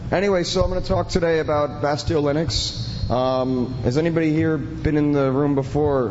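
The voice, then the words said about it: Hoarse, strained voice. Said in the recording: “I'm losing my voice. I've been talking. ... so I'm kind of losing my voice,”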